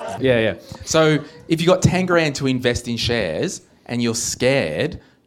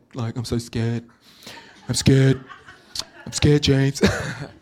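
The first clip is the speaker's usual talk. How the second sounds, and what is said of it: Poor imitation of another person's voice. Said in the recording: “I've got to work on my Trump accent. ... It's pretty bad.”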